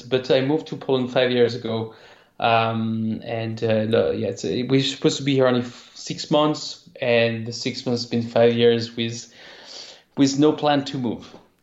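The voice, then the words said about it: French accent. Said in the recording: “I'm actually French, as you can tell from my accent.”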